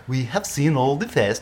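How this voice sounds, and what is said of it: Mock Swedish accent, possibly Dutch-sounding. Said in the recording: “This is my Swedish accent. No, that's not. That's Dutch, isn't it? What's Swedish? ... This is offensive to the Swedes”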